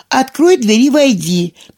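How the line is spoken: Shouting. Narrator (Russian): крикнула она

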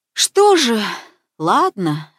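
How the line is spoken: Sighing. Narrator (Russian): вздохнула мама

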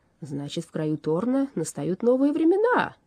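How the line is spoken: Joyful announcement. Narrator (Russian): радостно возвестил Уорра

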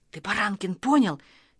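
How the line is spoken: Quiet boy's voice. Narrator (Russian): тихо продолжал Костя

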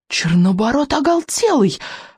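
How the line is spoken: Exclamation. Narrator (Russian): воскликнул Рыбьенок

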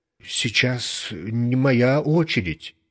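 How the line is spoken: Plain. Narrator (Russian): сказал я

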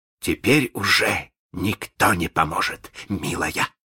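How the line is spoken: Gloating hiss. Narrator (Russian): злорадно прошипел Малинс

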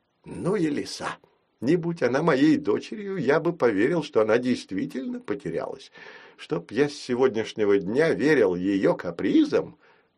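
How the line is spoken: Muttered. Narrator (Russian): пробормотал Фрид

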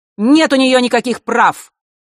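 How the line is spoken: Angry woman's exclamation. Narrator (Russian): зло воскликнула женщина

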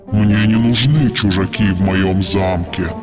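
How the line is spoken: Monster's growl. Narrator (Russian): прорычало чудовище

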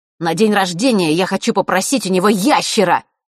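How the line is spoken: Loud. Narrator (Russian): громко произнес Норт

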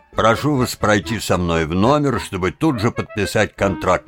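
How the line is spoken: Plain. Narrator (Russian): сказал барон

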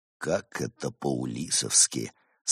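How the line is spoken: Sigh of feigned sympathy. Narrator (Russian): с наигранным сочувствием вздохнул Барс

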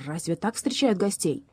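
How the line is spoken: Offended bark. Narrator (Russian): Лев обиженно рявкнул

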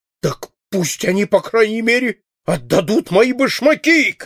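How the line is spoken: Furious shout. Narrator (Russian): крикнул Паспорту в припадке охватившего его бешенства

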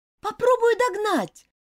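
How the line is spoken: Shouted. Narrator (Russian): крикнула Элизабет

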